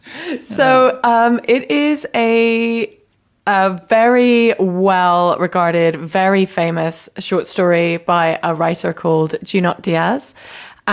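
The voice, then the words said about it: British accent. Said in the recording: “it's because of my British accent. It's almost impossible to understand what I'm saying.”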